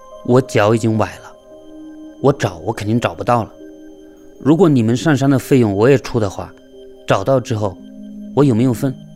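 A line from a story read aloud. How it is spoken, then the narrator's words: Plain. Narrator (Chinese): 他问了这么一个问题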